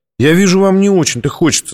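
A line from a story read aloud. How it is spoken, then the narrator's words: Plain. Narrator (Russian): сказала она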